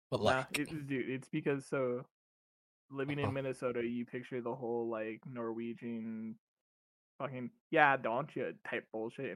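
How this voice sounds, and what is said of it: Southern US accent. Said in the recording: “for a northerner, you really do have like a southern accent.”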